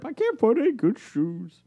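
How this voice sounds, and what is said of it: Bosk character voice. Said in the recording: “And that's how he talks, too. My name is Bosk.”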